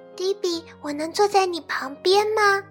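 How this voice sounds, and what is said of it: Speaking softly, quiet voice. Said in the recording (Chinese): “小声问”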